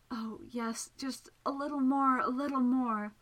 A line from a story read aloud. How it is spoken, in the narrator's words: said in a drugged voice